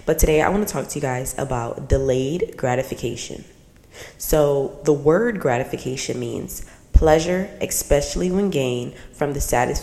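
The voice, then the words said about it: Slightly raspy voice. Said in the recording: “I know you guys can hear my voice is a little raspy. I am coming down with a little cold”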